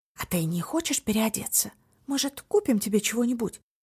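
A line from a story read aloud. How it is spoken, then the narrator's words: Whisper. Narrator (Russian): прошептала Танби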